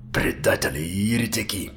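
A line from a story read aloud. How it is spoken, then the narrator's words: Grumbling. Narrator (Russian): проворчал Казан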